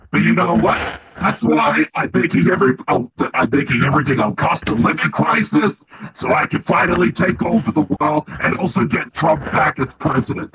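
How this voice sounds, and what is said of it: Devil character with New York accent. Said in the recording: “I'm the New York devil. ... I get a New York accent for no reason.”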